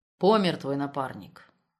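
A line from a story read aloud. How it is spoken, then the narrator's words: Grim. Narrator (Russian): мрачно сообщил лейтенант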